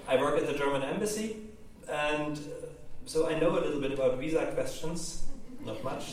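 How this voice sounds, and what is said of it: German accent. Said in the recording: “my accent is German”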